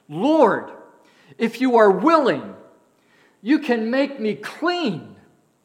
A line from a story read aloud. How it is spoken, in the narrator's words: he begged him